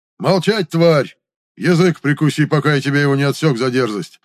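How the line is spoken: Elder man yelling. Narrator (Russian): заорал старший

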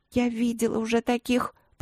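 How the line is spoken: Quiet muffled girl mumbling. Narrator (Russian): пробормотала тихо девчонка, пряча лицо в его шкуре

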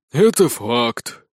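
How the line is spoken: Sighing boy. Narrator (Russian): вздохнул мальчик-волшебница-фея

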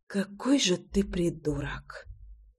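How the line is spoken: Whisper. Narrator (Russian): прошептала Русенька

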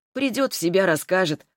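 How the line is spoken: Snorting hmph. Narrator (Russian): хмыкнул Иван

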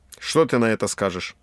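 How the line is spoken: Plain. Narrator (Russian): Я сказал

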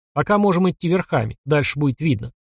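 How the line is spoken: Quiet. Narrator (Russian): негромко сказал

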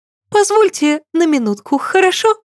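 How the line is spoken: Awkward, childish little voice. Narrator (Russian): неловко отпросилась моя знакомая своим детским голосочком

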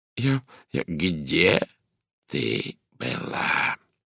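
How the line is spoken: Quiet hoarse menacing voice. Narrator (Russian): Тихий хриплый голос звучал угрожающе

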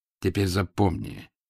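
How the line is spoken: Quiet. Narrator (Russian): сказал тихо

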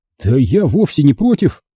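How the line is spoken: Cheerful. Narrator (Russian): весело подхватил Данила

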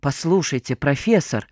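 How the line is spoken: Irritated. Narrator (Russian): раздраженно начал второй голос

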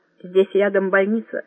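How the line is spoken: Plain. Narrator (Russian): сказал Равиль

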